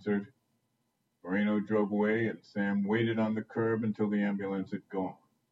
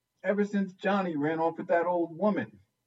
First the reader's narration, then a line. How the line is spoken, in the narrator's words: Bobby piped